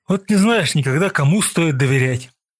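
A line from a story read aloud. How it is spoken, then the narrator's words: Sighing. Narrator (Russian): вздохнул Павлов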